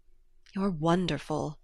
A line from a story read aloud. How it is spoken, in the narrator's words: he murmured